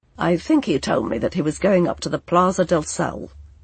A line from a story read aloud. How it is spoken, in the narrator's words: he mumbled